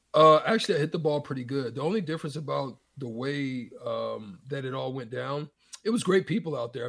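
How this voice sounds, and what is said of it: Hoarse, strained voice. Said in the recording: “losing my voice a little bit. I think I've been doing a little bit too much yelling.”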